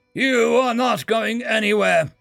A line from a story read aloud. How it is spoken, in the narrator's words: he bellowed, veins bulging in his forehead